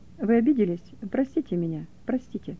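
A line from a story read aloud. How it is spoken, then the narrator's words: Quiet. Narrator (Russian): тихо сказал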